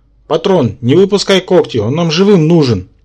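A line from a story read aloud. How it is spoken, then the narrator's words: Anxious shout. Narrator (Russian): тревожно крикнул Рабан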